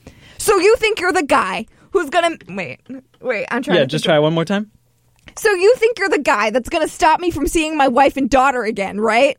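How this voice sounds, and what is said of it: Imitates another person's voice. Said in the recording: “here's my impression of Glenn Powell in The Running Man”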